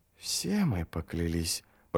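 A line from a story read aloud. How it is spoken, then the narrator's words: Whisper. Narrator (Russian): прошептала мать Гандринг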